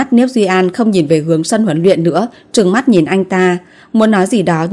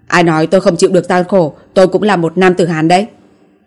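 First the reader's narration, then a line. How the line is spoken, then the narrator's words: Angry, flustered. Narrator (Vietnamese): Sắc mặt Tống Đình Ngọc đỏ lên, tức giận nói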